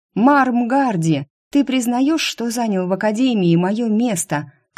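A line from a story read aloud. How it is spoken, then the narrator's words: Shout. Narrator (Russian): крикнула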